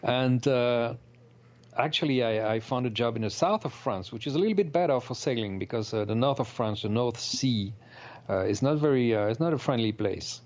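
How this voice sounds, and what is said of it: French accent. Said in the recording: “I'm originally from France, as you can tell by my accent, probably.”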